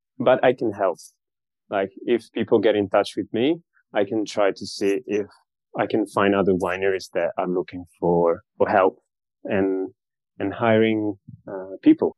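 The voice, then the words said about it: Slight Australian accent. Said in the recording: “the Australian accent is showing a little bit”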